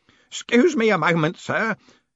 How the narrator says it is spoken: he wheezed between hacks

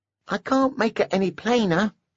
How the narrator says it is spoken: he squeaked, and somehow the cartoon voice made him seem more dangerous

